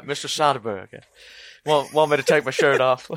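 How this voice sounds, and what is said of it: Imitates another person's voice. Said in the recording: “that Matthew McConaughey impression”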